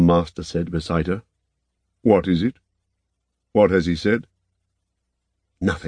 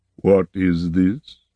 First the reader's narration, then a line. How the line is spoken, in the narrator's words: Lord Horn said, slowly as ever